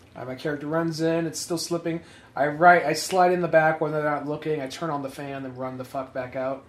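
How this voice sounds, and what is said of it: Usual voice. Nothing is said of it.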